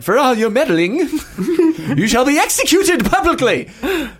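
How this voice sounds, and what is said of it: Put-on British accent. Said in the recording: “Oh, sorry, I forgot the British accent.”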